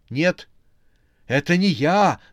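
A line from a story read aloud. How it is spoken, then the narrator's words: Trembling voice. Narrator (Russian): дрожащим голосом проговорил пельмень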